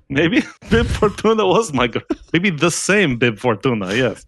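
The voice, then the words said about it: Put-on Russian accent. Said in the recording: “keep up the Russian accent for the entire show ... We've got the accent down a lot better than we used to”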